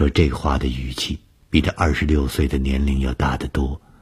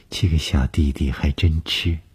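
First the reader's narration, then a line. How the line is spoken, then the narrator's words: Calm, indifferent. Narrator (Chinese): 董峰 只是淡淡地说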